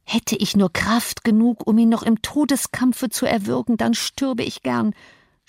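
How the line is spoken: Anguished groan. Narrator (German): stöhnte Arnshaw

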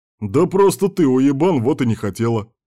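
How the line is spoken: Sincere declaration. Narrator (Russian): искренне заявил Кирк

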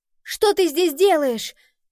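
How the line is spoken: Shouted. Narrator (Russian): крикнула Нова коту

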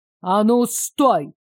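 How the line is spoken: Sharp shout. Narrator (Russian): прикрикнул незнакомец в униформе

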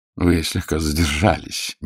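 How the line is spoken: Gentle reproach. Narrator (Russian): мягко поменял ему Нестор Васильевич

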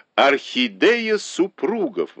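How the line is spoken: Exclaiming. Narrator (Russian): воскликнула Доу Гуань

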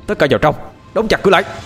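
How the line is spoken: Loud shout. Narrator (Vietnamese): hai trộm mới nhìn về phía mọi người mà hét lớn

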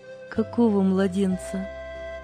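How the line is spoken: Sister, gentle question. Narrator (Russian): мягко переспросила сестра

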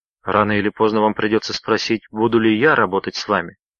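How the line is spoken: Plain. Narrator (Russian): ответил Роджер

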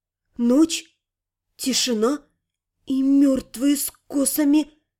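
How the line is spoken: Whispered. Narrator (Russian): прошептала

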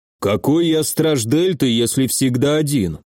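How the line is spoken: Grumbled. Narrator (Russian): проворчал

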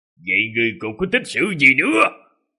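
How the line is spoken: Angry. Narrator (Vietnamese): Tài Quyết Đại Thần Quan nảy sinh ra một luồng khí nóng trong lồng ngực, giận dữ mà nói

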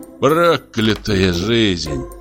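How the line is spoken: Grumbling. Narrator (Russian): проворчал он

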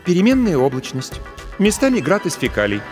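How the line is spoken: Sighing. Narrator (Russian): вздохнула Алекс

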